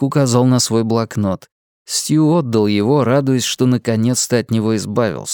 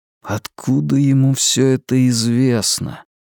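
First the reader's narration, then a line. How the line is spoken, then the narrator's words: Muttering. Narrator (Russian): пробормотал Стью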